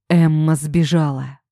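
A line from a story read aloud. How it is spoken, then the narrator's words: Breathless hoarse voice. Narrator (Russian): пытаясь отдышаться, прохрипел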